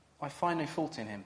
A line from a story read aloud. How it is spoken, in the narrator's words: Pilate says